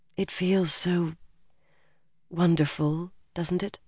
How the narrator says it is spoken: murmured

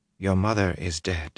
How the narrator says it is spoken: she said quietly

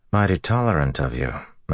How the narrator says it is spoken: Matt said flatly

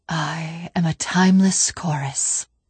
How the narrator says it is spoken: the Gravemind said quietly

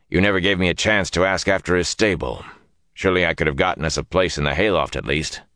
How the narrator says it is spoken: Tom growled in his normal voice

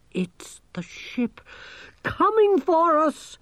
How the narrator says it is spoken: exclaimed Gerda

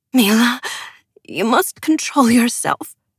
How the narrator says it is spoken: Ylva pleaded

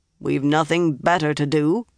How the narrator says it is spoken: Regan said dryly

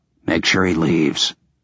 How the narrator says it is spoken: said quietly

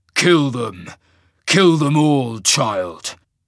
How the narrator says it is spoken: The Reaver snarled

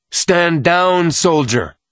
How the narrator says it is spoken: the man's voice boomed out

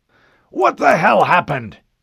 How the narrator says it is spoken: the Admiral shouted

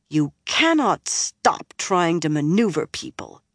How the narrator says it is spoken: Nynaeve said bitterly

